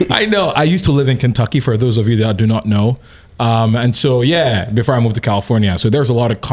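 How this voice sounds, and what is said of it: Usual voice. Nothing is said of it.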